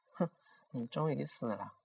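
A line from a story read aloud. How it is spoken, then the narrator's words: Faint smile, murmuring. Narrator (Chinese): 惠儿竟然发出一丝笑意，喃喃道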